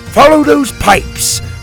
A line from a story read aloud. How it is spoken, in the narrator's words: Drake roared